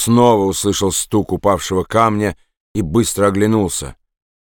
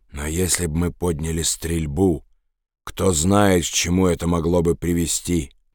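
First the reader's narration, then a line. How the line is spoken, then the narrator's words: Whispered. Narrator (Russian): шепотом сказал Роберт Джордан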